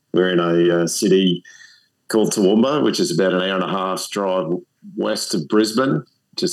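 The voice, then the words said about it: A cool accent. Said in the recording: “you have a cool accent”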